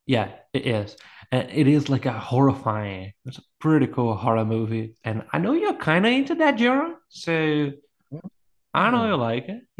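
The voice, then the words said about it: Speaks with an accent. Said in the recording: “Try and compensate for my accent”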